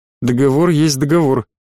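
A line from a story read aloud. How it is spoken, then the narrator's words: Dry remark. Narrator (Russian): сухо заметил Норберт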